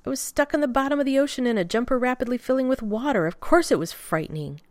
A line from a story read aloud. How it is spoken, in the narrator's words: Rodney snapped back